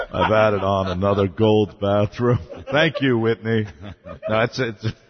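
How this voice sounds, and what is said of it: Imitates another person's voice. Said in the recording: “my Clive Davis impression”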